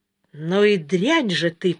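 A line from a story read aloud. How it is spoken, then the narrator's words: Hissed. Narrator (Russian): прошипел он Соне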